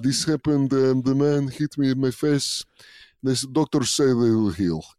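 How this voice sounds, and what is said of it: Put-on Russian accent. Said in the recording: “I was just doing a Russian accent the whole time saying I was a Russian MMA fighter”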